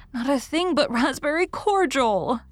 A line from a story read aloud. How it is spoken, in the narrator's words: sobbed Anne